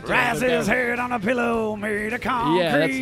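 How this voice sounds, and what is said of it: Imitates a rock singer's singing voice. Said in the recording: “fake sing Eddie Vedder ... hit me with the opening to Even Flow ... I said it with much more inflection and much more passion”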